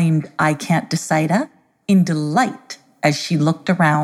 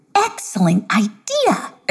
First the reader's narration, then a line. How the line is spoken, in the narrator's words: exclaimed I Can't Decida